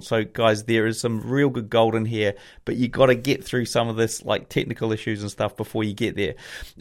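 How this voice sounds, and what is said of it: Mixed New Zealand, Australian, British accent. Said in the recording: “my crazy New Zealand, Aussie, UK kind of accent”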